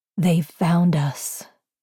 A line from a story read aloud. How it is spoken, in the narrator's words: her mother said in a chilling voice that Cinder had never heard her use before